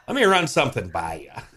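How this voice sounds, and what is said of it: Imitates another person's voice. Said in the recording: “That's a pretty good imitation right there.”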